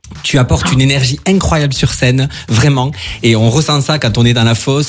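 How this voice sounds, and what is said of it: Melodic, sing-song regional French accent. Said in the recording (French): “c'est pas du tout un accent de Strasbourg que tu as là ... c'est beau, ça chante.”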